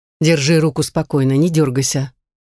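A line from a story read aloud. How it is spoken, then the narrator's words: Grumbling prince. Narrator (Russian): проворчал принц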